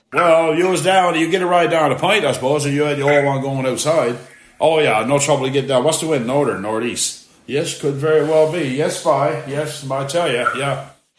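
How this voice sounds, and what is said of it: Strong regional accent. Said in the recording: “my dad and his accent... I don't sound like my dad”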